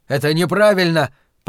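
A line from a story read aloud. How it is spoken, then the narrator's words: Shouting. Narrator (Russian): прокричал Уитни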